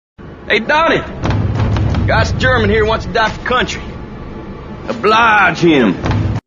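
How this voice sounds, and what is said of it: Exaggerated put-on accent. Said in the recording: “His accent, Brad Pitt's accent, incredible, on point, even though it's not really on point... the hilarious accents”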